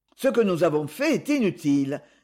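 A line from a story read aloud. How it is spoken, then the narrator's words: Sad. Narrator (French): répondit tristement Katina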